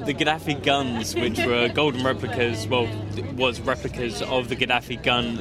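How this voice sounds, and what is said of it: Southern English accent. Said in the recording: “I can sense from your accent you're a southerner.”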